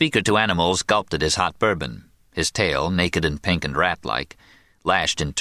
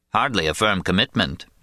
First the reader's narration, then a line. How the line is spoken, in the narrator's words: said Louis